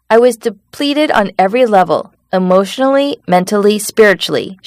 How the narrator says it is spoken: said

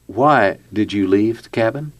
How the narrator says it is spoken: Finally, Jeff calmly asked her

